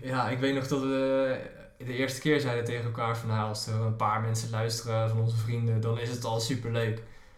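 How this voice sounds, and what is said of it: Westland Dutch regional accent. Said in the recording (Dutch): “moesten wennen aan het Westlandse accent ... van mij vooral”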